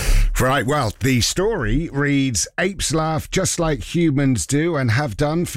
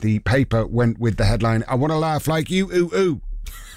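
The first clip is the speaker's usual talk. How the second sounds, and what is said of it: Good impression of ape noises. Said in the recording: “That's a good impression”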